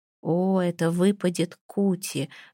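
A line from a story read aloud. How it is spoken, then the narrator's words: Breathless exhale. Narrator (Russian): выдохнул он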